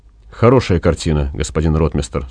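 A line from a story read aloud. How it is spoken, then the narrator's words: Plain. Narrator (Russian): сказал Максим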